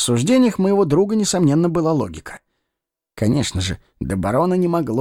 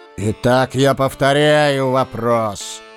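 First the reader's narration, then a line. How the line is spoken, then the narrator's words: Thunderous, menacing. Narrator (Russian): Еще более сгущая тучи у нас над головой, прогремел фон Штраумберг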